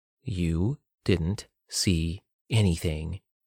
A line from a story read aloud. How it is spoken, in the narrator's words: she spoke slowly